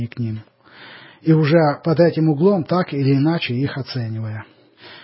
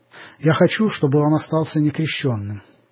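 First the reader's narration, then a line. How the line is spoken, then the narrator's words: Plain. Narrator (Russian): сказала Елена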